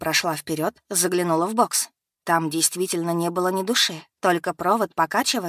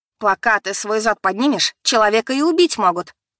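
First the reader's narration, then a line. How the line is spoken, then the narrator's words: Shout. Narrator (Russian): закричала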